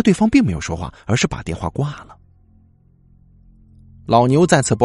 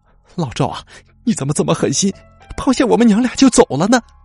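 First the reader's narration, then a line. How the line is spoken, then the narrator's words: Weeping, trembling old man. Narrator (Chinese): 他哭红了双眼……鬓角的白发随着身体不住颤抖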